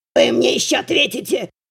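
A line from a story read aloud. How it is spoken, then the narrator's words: Hissing. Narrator (Russian): Прошипел Буздюк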